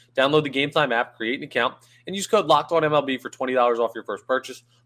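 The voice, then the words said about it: Congested, slightly rough voice. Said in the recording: “My voice is a little bit shoddy ... I can't smell, and my sinuses naturally are terrible”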